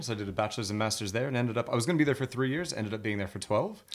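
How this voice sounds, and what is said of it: Confusing mixed accent. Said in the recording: “that's why my accent is as confusing as it is.”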